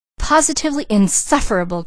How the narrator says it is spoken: cried Mrs

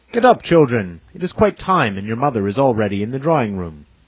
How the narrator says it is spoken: he exclaimed in his strong German accent

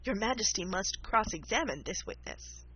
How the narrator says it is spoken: the white rabbit, who said, in a low voice

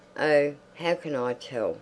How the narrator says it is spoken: said Josephine crossly

